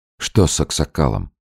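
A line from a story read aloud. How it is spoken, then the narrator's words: Quiet question. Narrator (Russian): Иван негромко спросил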